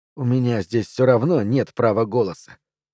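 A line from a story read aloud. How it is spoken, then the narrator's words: Weary sigh. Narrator (Russian): устало вздыхаю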